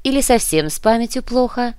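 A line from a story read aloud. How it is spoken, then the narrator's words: Sighing. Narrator (Russian): Отец Динамус вздохнул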